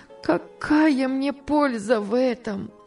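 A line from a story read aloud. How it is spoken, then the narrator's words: Sobbing woman. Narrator (Russian): отвечала она, рыдая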